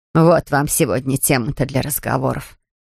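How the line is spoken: Snorting. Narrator (Russian): фыркнула Надин

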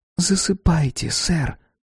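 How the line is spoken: Girl's whisper. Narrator (Russian): прошептала девочка

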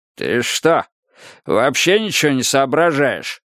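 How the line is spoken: Roaring. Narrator (Russian): взревел Кроули

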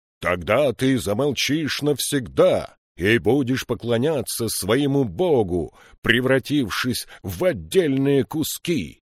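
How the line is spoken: Triumphant shout. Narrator (Russian): Триумфально закричал император

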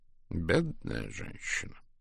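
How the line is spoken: Mutter. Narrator (Russian): пробормотал он

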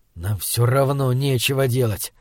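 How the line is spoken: Hissed. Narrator (Russian): прошипел он

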